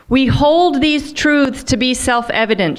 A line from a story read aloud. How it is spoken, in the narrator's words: she shouted